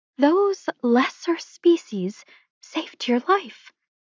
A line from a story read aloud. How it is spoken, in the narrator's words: Alanique muttered